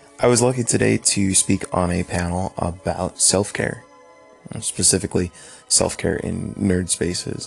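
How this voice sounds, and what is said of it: Tired, low-energy, recovering voice. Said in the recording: “You could hear I'm a little bit out of energy... my voice is coming back”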